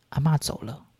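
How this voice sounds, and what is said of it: Quiet, soft-spoken line. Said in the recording (Chinese): “小声的说了一句”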